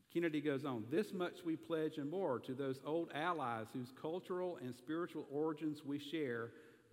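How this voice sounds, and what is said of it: Southern American accent. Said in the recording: “y'all, are, bless your heart, are hearing my southern accent”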